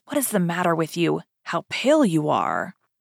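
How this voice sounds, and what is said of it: Low, hushed voice. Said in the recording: “in a low voice”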